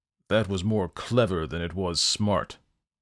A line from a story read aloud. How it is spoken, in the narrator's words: the devil snarled